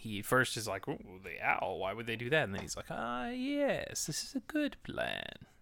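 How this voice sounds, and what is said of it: Imitates a cartoon character's voice. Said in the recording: “That's my Nicodemus impression.”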